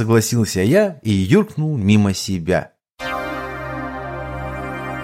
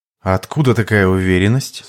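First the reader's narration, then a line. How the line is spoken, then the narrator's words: Woman speaking in male voice. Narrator (Russian): спросила мужским голосом тетя Теларине в образе аватара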